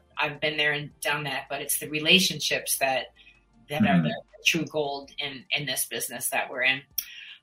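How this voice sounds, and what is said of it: Slight Minnesota accent, Canadian-sounding. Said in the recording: “you were originally from Minnesota, right? ... I can hear a little bit in the voice ... it almost sounds like a Canadian accent.”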